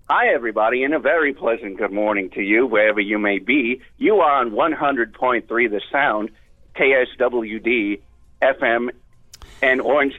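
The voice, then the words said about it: Vince Scully impression. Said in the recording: “I do a Vince Scully impression.”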